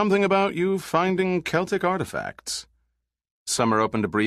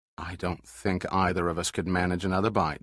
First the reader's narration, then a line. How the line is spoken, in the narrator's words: Dirk muttered